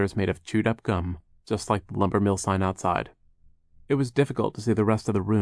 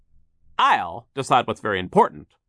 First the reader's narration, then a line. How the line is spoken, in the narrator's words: Sir barked